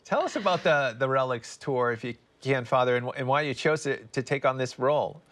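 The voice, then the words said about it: Boston accent. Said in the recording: “It's great to hear those Boston accents.”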